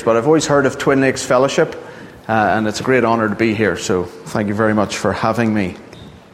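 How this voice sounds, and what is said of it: Northern Irish accent. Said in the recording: “As you can hear from my accent, I'm not from around here... But I'm from Northern Ireland”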